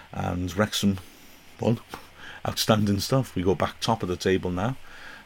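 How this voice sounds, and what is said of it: Hoarse, strained voice. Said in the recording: “you can see why I lost my voice”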